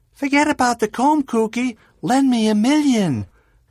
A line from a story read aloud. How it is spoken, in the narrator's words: some chick yelled out